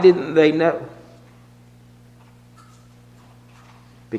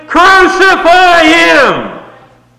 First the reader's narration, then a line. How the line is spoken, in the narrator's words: shouting